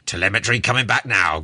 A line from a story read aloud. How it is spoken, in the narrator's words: growled the captain